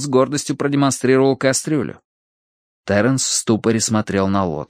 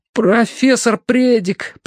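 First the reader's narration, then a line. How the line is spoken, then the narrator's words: Stammering babble. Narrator (Russian): пролепетал Терренс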